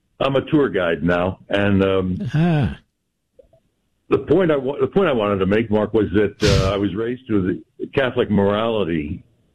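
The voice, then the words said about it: Polished radio announcer voice. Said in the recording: “that's a radio voice, America. you have a radio voice.”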